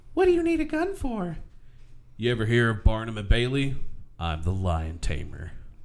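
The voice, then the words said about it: Man imitating a woman's voice. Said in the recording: “I'm going to do my best lady impression”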